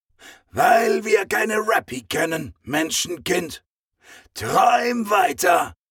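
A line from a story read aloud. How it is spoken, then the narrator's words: Croaking while flying past. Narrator (German): krächzte er sie im Vorbeifliegen an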